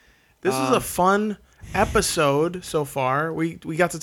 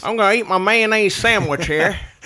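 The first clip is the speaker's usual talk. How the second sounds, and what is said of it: Put-on white Southern American accent. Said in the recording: “you culturally appropriated the white accent ... Every time you rip on this guy, you go to like Southern accent.”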